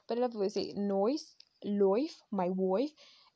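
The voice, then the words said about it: Imitated Australian accent. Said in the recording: “I also love the accent, the way they say noise... if an Aussie was listening in, they would be very irritated”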